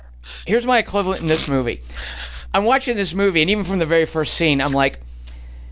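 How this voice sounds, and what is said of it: Usual voice. Nothing is said of it.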